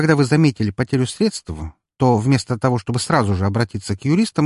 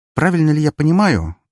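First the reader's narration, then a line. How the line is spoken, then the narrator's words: Sharp question. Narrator (Russian): довольно резко спросила Настя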